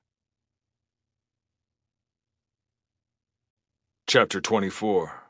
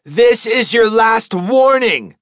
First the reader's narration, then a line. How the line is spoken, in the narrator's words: she shouted